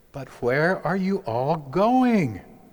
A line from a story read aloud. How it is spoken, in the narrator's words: Little Kitten cried